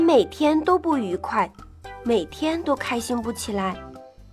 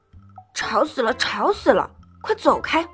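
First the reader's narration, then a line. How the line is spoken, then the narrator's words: Grumbling mutter. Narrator (Chinese): 他嘟嘟囔囔地说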